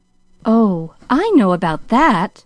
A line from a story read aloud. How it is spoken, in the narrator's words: interrupted Pollyanna eagerly